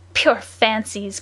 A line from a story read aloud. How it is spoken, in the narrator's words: cried the unknown